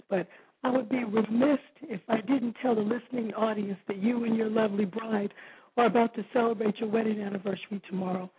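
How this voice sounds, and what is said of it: Hoarse, nearly lost voice. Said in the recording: “I've lost my voice”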